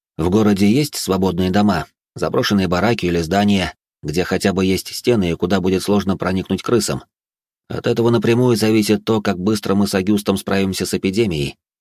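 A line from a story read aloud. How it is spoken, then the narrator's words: Plain. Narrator (Russian): сказал я Бриану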